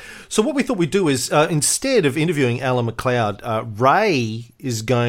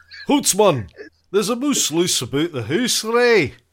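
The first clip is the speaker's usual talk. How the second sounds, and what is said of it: Put-on Shrek-style Scottish accent. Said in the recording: “I'm just going to do the whole show in my Shrek accent.”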